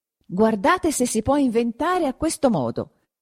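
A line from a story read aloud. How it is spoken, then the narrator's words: Exclamation. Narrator (Italian): esclamò di nuovo Perpetua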